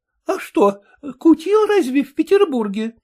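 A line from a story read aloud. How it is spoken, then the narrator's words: Timid question, aunt. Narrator (Russian): робко спросила тетка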